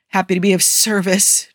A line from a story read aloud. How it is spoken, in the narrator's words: Joe wheezes as her elbow makes contact with his solar plexus